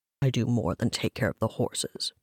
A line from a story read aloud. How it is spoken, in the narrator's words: Travok mumbled under his breath